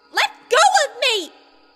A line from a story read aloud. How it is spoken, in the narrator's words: Ruto screamed, squirming beneath Link's hold